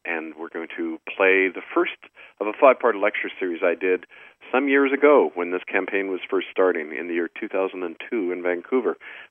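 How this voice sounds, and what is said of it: Sick, strained voice. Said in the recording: “despite my flu bug, which I'm battling... tell by my voice... I find it hard to talk sometimes... give my voice a rest”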